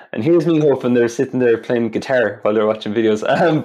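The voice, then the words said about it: Irish accent. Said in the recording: “My Irish accent,”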